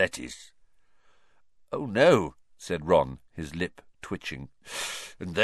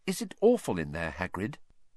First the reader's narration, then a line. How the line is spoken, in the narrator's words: Hermione said timidly